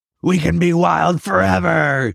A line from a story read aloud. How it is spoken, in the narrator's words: he roared